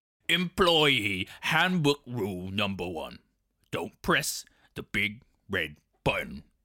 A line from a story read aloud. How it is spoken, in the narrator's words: Hermes growled